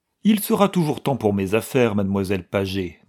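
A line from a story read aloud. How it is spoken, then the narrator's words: Urgent tone. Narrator (French): disait-il d'un ton pressant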